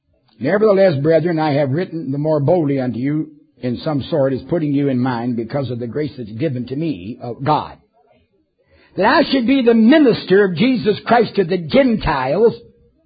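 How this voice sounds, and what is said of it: Deliberately phony put-on accent. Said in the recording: “pardon my phony accent, but I'm doing this on purpose”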